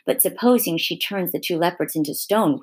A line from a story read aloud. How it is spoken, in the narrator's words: whispered Lucy to Peter